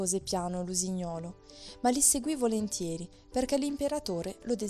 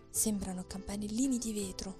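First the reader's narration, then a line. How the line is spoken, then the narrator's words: Knight whispering. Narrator (Italian): sussurrò il cavaliere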